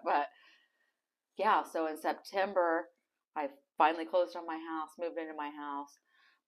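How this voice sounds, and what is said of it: Emotional, choked-up voice. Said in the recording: “I'm kind of getting emotional thinking about it.”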